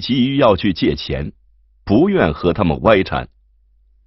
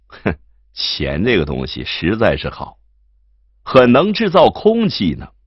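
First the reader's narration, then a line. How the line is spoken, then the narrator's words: Slight smile. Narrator (Chinese): 贺孙对燕西微微一笑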